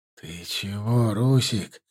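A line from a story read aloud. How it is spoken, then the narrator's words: Whisper. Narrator (Russian): шепнул ему Хаким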